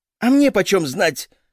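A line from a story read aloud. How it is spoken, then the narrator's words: Wife snapping back. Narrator (Russian): огрызнулась в ответ жена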